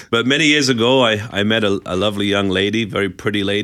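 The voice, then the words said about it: Distinctive non-local accent. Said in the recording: “you have a fantastic accent ... my kids always make fun of me for my accent”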